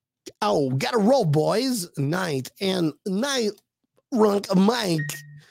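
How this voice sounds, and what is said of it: Imitates another person's voice. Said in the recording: “That's my Christopher ... I think I'm running out of impersonations”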